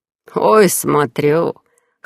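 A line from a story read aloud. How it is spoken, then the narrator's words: Young man chuckling. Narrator (Russian): Хохотнув, парень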